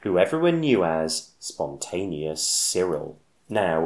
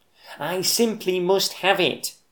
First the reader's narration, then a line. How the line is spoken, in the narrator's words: he wistfully cried